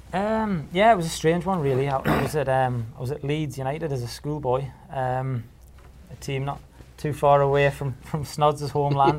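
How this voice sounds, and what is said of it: Non-local regional English accent. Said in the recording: “By your accent, you're not a local boy”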